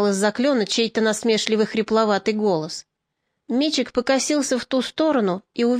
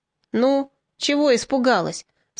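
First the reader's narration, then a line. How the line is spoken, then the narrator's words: Calm hoarse voice. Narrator (Russian): спокойно продолжал хрипловатый голос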